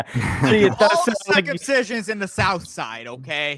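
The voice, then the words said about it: Put-on Jewish Boston accent. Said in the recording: “no matter what accent you do, it's Jew. It's a Jewish guy from that place ... it does sound like you're from Boston, but also like clearly Jewish”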